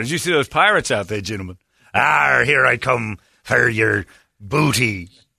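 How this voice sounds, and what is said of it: Put-on pirate accent. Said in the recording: “pirate accent.”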